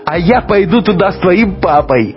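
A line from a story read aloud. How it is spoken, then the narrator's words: Laughing. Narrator (Russian): засмеялась Катя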